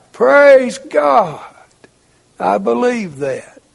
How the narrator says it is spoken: He just bellowed out

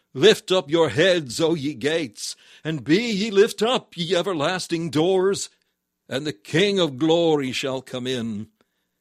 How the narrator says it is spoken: the bright ones of the sky came to meet him, and cried

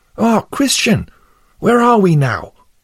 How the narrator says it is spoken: Then Pliable cried out

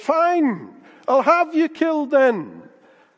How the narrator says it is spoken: the king shouted out

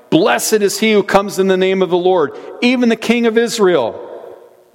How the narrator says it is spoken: was shouting

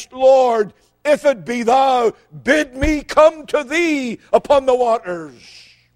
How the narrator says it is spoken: immediately he cried out to Christ

